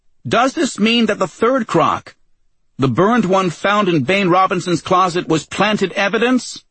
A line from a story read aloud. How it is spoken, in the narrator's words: a reporter shouted